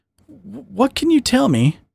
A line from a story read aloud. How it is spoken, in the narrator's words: Anne stammered at the closeness of Sharky